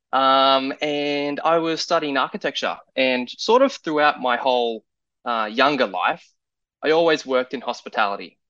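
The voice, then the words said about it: Australian accent. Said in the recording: “I was back in Australia. You can probably tell from my voice that I'm not a Native American.”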